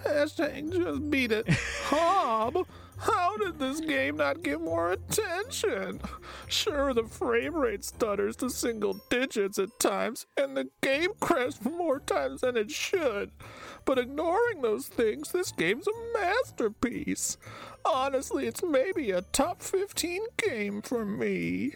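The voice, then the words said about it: Imitates another person's voice. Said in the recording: “that's exactly how Caleb sounds, too. That's a good Caleb impersonation.”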